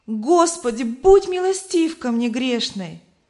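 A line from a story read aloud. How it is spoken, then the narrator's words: Loud exclamation in sleep. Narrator (Russian): Она громко воскликнула во сне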